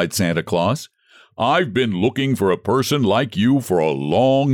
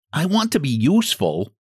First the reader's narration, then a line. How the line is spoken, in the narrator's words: Jimmy Scarecrow said anxiously